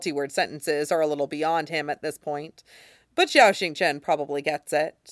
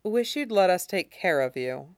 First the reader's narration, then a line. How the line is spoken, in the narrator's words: Xiaoxingchen sighs